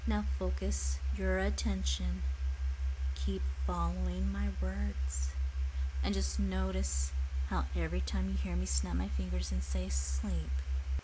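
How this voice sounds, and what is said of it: Soothing, calm hypnotic voice. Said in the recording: “so soothed by the sound of my voice... My voice just calms, relaxes, and entrances you.”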